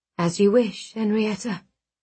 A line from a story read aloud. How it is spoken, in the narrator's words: he murmured